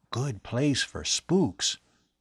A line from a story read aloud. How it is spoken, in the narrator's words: Bud whispered jokingly